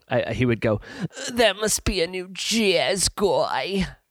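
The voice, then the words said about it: Imitates another person's voice. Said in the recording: “I did my Ron voice wrong... That's how Ron would go.”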